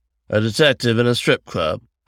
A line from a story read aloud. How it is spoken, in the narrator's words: I said dryly